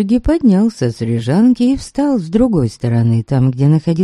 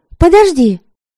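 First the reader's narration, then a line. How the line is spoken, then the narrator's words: Sharp call. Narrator (Russian): Окрикнула его Предслава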